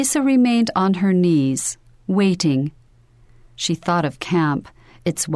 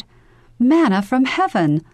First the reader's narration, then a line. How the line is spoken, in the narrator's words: Laughing